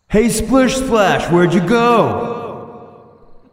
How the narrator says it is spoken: he's going to yell out

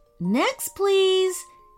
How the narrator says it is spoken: she called out

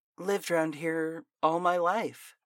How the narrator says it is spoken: she said

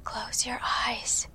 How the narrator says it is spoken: whispered

